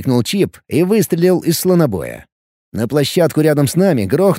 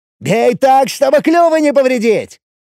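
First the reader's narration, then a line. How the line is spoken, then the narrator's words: Cheerful shout. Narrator (Russian): весело прокричал Чип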